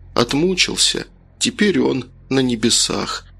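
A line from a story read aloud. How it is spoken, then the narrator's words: Sad. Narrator (Russian): отец и мать скажут печально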